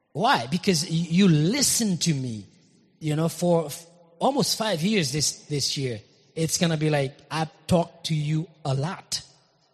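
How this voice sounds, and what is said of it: Speaks with a foreign accent. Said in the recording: “I do have an accent. I love my accent.”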